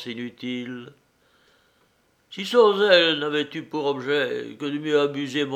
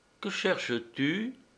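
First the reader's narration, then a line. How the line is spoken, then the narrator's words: Calm question. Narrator (French): Elle demanda d'une voix tranquille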